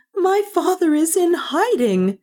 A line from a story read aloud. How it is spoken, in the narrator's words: she cried